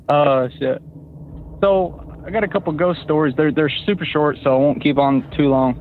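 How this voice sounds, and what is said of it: Oklahoma accent. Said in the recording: “sounds like an Oklahoman ... I'm pretty sure that's an Oklahoma accent”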